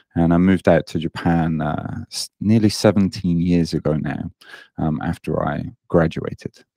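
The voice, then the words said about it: British English accent. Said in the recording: “you may hear in my accent that I don't sound very Japanese. I'm British.”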